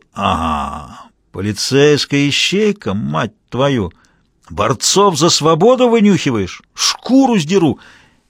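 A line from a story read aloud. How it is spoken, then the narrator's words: Lazy drawl. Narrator (Russian): Мазур лениво протянул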